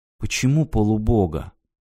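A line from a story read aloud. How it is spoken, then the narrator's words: Quiet question. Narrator (Russian): тихо спросила Ирина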